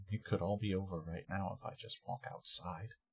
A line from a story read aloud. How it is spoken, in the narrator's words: Pope is just quietly murmuring